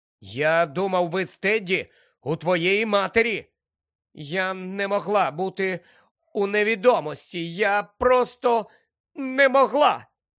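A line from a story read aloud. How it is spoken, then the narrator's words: Pained voice. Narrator (Ukrainian): Зболеним голосом пояснила Тонкс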